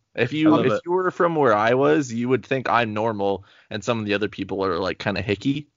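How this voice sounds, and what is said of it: Canadian accent. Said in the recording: “I'm Canadian, but everyone thinks I'm American ... It's just my accent.”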